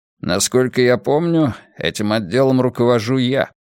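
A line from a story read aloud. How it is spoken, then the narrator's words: Stern. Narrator (Russian): строго сказал Мунк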